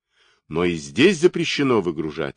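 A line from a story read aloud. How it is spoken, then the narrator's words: Snapping back. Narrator (Russian): огрызнулся было лейтенант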